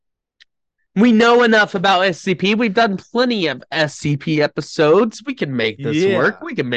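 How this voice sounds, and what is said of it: Usual voice. Nothing is said of it.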